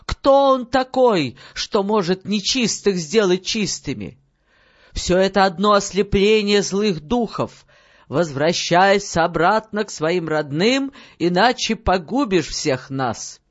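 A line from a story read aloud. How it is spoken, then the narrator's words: Group shouting. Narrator (Russian): девушки все закричали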